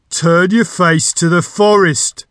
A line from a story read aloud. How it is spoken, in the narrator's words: the voice boomed once more